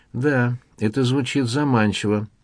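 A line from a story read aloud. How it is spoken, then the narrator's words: Sighing. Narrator (Russian): вздохнул маркиз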